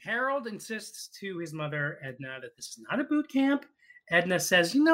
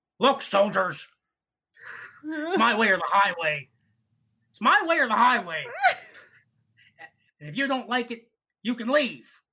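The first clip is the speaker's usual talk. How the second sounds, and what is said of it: Impression of the character Edna. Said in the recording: “my Edna impression”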